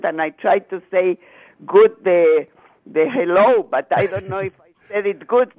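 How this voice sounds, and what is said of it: Soothing Chilean Spanish accent. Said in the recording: “I love your accent. ... Is it Romanian ... Spanish, Chile. ... It's so soothing to listen to it.”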